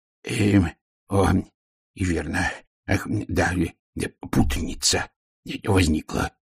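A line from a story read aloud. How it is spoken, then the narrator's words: Mumbling. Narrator (Russian): пробормотал он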